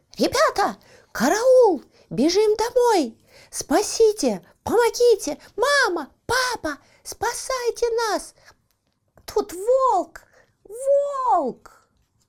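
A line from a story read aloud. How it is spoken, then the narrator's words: Children screaming. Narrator (Russian): Малыши заорали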